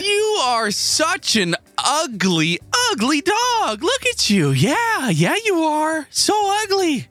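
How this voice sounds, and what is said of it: Insults spoken in cheerful happy tone. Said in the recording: “being mean in a happy voice”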